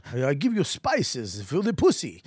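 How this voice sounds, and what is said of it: Awful put-on foreign accent. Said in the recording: “that was an awful accent ... That was the worst”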